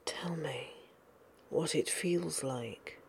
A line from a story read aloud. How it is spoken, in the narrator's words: breathed into his ear, not as discouraged as Sherlock expected him to be